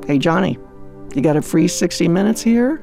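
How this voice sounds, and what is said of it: Whispered line. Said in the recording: “whispering”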